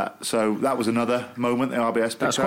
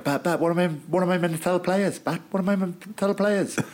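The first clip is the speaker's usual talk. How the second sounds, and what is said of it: Camp-sounding impression of a man. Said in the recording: “That's quite a camp impression... are you doing more camp accent”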